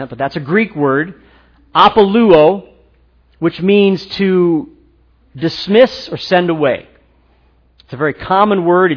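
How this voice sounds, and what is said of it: American accent. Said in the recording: “I'm probably saying that with a real bad American accent”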